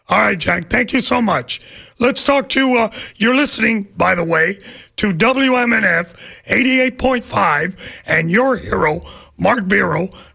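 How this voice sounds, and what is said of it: Hoarse, strained voice. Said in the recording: “I'm even losing my voice on the first day back”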